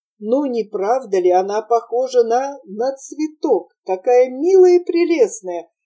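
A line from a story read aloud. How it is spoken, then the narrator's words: Exclaimed with great admiration. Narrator (Russian): воскликнула Гретель с величайшим восхищением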